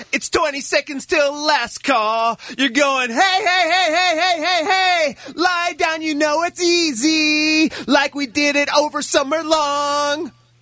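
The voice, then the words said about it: Put-on French accent while singing. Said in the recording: “I was doing that French accent there. ... Yeah, it sounded like it.”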